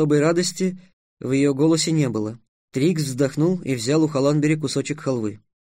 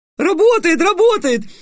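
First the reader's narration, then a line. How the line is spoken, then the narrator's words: Shouted. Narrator (Russian): закричала Груя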